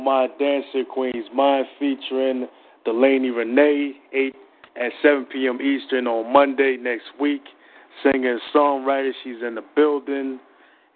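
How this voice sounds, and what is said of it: East Coast American accent. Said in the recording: “You from East Coast? ... I'm picking up that accent. You're probably from Brooklyn or the Bronx, right?”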